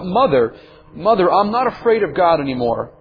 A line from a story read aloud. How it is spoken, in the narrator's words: she came running, and she cried out